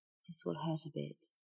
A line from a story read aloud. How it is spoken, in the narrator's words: she said softly